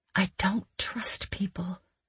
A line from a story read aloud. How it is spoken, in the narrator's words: I whispered